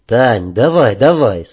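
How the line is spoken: Calm. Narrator (Russian): спокойно сказал

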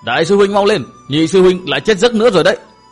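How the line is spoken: Loud. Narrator (Vietnamese): Đại Lập lớn tiếng nói tiếp

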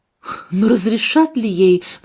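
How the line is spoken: Anxious question. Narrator (Russian): взволнованно спросил я

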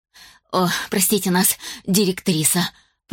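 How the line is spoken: Whimpering. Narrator (Russian): прохныкал Нин

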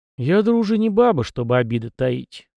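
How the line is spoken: Repeated sigh, young man. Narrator (Russian): вздохнул в который уже раз парень

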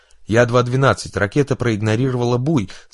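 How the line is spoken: Panicked shout over radio. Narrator (Russian): закричал в эфир пилот, за которым гналась ракета

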